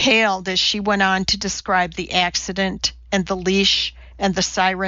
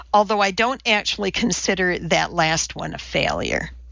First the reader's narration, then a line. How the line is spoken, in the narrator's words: said